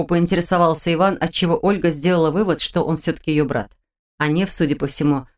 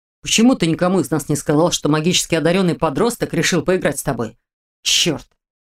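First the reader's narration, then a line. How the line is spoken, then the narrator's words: Sudden growl. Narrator (Russian): прорычал Дементьев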